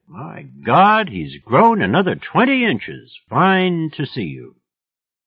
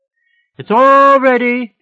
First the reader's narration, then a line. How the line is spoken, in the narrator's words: she yelled back